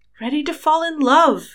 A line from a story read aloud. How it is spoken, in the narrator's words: Harry cried